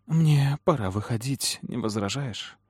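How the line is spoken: Timid, smiling. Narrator (Russian): спросила, робко улыбнувшись

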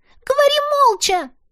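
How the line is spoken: Sudden sharp shout, girl. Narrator (Russian): вдруг прикрикнула девчонка

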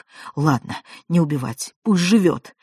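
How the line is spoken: Feverish mutter. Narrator (Russian): бормотал лихорадочно

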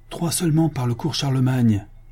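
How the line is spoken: Shouting. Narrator (French): cria-t-il

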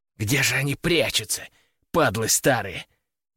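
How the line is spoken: Hissing, bandit. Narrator (Russian): прошипел один из бандитов

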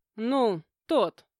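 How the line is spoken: Hesitant, forced out. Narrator (Russian): неуверенно выдавила

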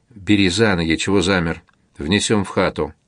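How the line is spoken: Quiet command. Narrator (Russian): Чеченец тихо приказал Парфенову

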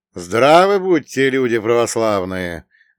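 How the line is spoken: Loud. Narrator (Russian): громко произнес

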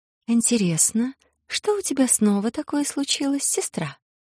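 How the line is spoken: Soft rustling voice. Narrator (Russian): Мягко прошелестел по духам голос зеленоволосый

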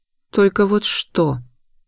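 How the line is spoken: Gloomy question. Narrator (Russian): мрачно спросила я

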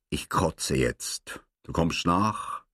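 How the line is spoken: Tired sighing speech. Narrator (German): Mit einem Seufzer sagte müde

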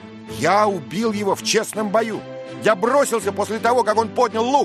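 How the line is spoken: Shouting. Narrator (Russian): закричал

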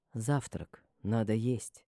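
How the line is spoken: Beautiful velvety voice. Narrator (Russian): сказал он своим красивым бархатистым голосом

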